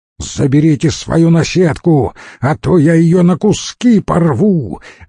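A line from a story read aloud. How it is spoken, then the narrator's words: Venting, yelling. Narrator (Russian): разряжаясь, заорал Печенков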